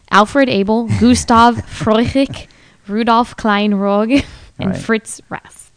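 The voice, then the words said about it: Bad put-on German accent. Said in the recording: “That was my horrible German accent”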